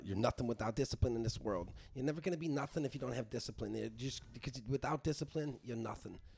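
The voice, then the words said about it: Imitates another person's voice. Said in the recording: “good Mike Tyson impression ... No, I thought it was pretty good.”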